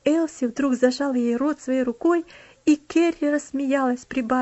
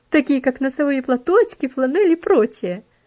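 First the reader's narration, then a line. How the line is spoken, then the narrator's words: Laughing interjection. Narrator (Russian): вставила, смеясь, Аделейд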